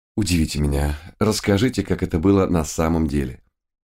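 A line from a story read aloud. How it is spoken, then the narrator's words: Quiet question. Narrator (Russian): тихо спросил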